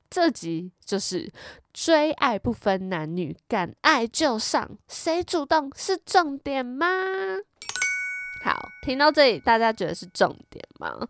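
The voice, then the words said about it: Slightly altered, lisping speech. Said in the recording (Chinese): “我是戴为牙套，牙套那个维持器录音...讲的话可能就有点口音”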